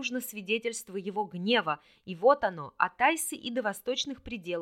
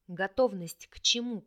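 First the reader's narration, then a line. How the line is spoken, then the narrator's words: Whisper. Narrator (Russian): прошептал Рин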